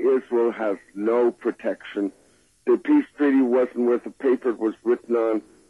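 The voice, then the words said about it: Congested voice with a cold. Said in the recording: “I've got a cold, as you can hear.”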